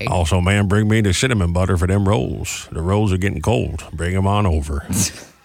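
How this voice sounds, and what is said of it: Cartoonish cowboy voice. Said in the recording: “I think it's a good impression of mine, though, of all the ones that I do. Yeah, the cowboy voice. ... like a cartoon voice.”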